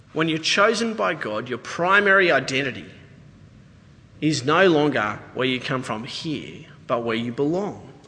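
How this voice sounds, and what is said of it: Australian accent. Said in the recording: “You don't have the American accent down ... What part of Australia are you from? Like, he knew straight away I was a stranger.”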